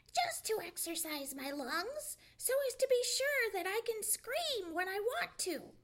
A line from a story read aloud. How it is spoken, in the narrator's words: replied Sammy, screaming still louder